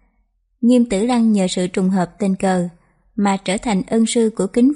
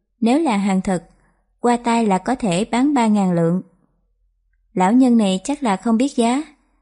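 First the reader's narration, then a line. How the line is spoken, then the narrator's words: Smiling. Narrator (Vietnamese): Diêu Chưởng Quỷ mỉm cười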